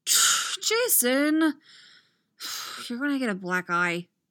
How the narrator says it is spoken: Tim sighs

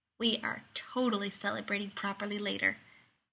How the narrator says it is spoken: Rodney muttered into his ear

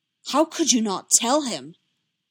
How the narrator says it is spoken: Obi-Wan hissed through his teeth

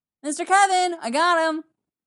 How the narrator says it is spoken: the kid hollers

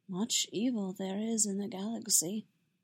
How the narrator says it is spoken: Yoda said softly

